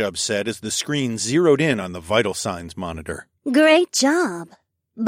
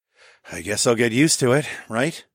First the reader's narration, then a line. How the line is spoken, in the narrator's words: I sighed